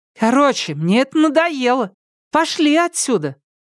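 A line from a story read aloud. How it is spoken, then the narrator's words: Shrill, grating female voice. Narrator (Russian): Ее визгливый голос ворвался фальшивый, режущий слух нотой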